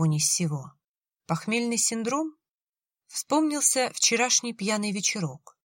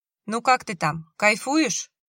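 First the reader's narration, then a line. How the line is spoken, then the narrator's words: Smirking grunt. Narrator (Russian): Борис хмыкнул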